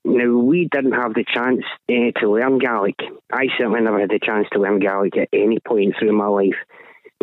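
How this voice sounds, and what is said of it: Scottish accent. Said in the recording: “as you can probably tell by the accent, I'm not Irish. Born, bred and raised in Scotland.”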